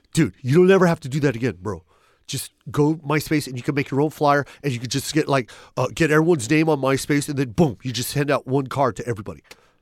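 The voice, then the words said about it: Imitates another person's voice. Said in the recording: “horrible Dane Cook impersonation”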